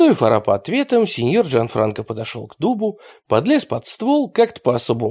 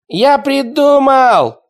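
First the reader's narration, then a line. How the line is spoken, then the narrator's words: Shouting street kid. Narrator (Russian): закричал оголец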